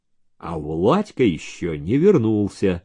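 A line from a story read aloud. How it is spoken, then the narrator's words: Plain. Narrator (Russian): сказал Алексей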